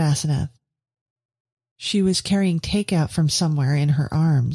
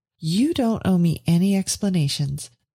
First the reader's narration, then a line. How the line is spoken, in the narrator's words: said Veronica warmly